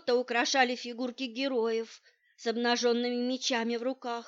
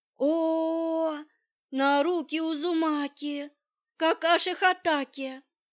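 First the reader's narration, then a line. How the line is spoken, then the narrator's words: Children moaning with delight. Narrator (Russian): Дети застонали от восторга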